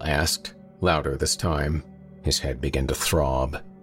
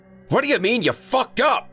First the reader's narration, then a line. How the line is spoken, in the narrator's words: Earl shouted